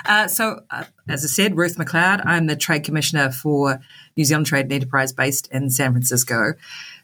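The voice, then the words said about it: Strong New Zealand accent. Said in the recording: “you've got a strong Kiwi accent”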